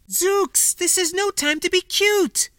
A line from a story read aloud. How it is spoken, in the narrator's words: Yumani cried